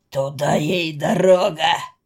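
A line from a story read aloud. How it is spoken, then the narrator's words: Deep bass, fat man. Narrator (Russian): пробасил за него толстый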